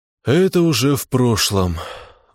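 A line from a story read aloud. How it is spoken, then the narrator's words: Sigh. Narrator (Russian): вздохнул я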